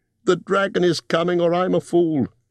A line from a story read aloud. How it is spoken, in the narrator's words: he cried